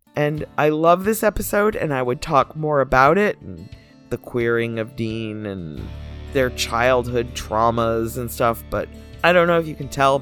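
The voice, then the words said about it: Scratchy, hoarse, fading voice. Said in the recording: “my voice is kind of like scraggly tonight ... I've been talking too much in the last couple days, and I'm just losing my voice ... it doesn't hurt, it's just scratchy sounding”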